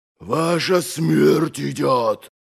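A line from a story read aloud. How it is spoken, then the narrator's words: Growling. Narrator (Russian): прорычал Доздувой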